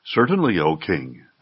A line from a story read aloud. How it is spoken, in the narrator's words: they replied